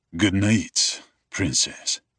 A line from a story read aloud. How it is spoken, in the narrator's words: he says, his voice a little rough